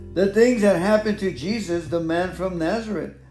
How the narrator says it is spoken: they said

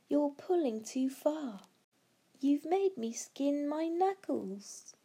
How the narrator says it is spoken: cried Barney

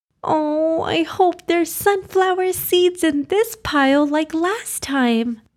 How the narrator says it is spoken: Chirping away, Hira exclaimed

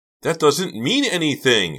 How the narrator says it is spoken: she cried

